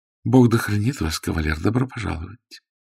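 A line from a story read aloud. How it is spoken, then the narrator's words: Tender voice. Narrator (Russian): Дама произнесла нежным голосом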